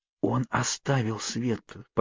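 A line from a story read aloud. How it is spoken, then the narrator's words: Whisper from behind. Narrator (Russian): послышался у меня за спиной шепот Кейт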